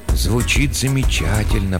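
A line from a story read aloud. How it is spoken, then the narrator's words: Whispered. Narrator (Russian): прошептал Хендрат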